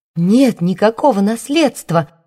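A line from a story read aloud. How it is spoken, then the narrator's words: Exclaimed. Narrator (Russian): воскликнула она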